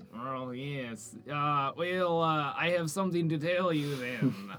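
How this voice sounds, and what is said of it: Weak put-on French accent. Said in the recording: “I am bad at French accents ... I noticed that you were having some trouble.”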